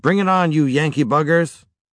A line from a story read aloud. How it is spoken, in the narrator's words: Peter shouted to the sky